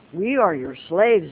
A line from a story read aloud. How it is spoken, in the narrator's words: they said